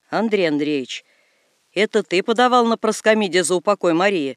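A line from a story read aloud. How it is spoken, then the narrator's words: Angry priest's question. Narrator (Russian): спрашивает батюшка, сердито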